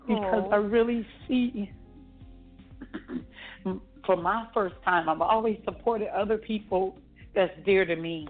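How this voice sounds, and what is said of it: Choked-up, emotional voice. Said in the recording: “I'm kind of getting choked up.”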